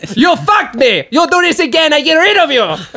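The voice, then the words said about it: Funny put-on foreign accent. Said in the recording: “they do all have funny accents ... You sound so stupid!”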